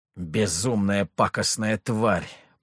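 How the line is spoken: Restrained growl. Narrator (Russian): прорычал самодержец, едва сдержавшись

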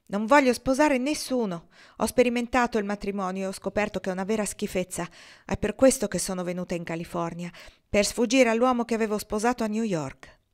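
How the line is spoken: Outburst. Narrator (Italian): Ortensia sbottò

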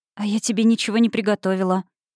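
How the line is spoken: Sighing. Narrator (Russian): вздохнула я

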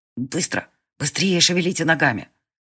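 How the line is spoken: Snapping retort. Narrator (Russian): Конор почти огрызнулся

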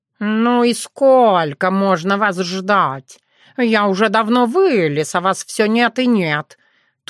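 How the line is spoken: Grumbling cat. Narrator (Russian): Тут же разворчался кот

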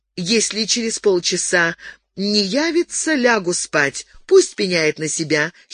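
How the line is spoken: Giggling. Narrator (Russian): хихикнула она

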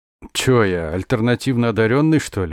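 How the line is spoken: Snort. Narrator (Russian): он хмыкнул

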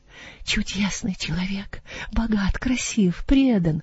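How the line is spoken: Rapturous whisper. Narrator (Russian): прошептала мадемуазель Якобсон в упоении

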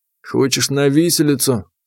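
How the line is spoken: Calm question. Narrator (Russian): спокойно спросил ее Сытин

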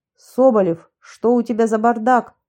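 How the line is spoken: Barked. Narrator (Russian): рявкнул он

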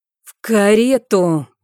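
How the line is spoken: Angry growl. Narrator (Russian): прорычал он зло

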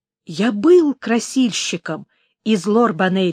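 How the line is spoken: Plain. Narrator (Russian): сказал

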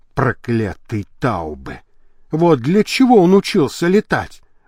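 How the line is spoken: Muttered. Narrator (Russian): пробормотал Лабрюйер

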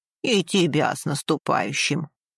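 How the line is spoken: Old man snorting. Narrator (Russian): хмыкнул старик

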